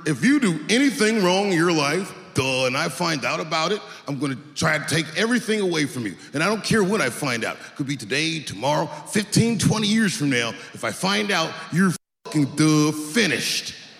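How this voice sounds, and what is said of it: Imitates another person's voice. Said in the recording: “doing an impression ... let me get into character”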